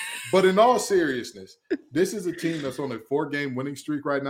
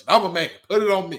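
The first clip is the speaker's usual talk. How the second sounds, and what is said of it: Imitates another person's voice. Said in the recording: “I'm doing my best Van Gundy impression.”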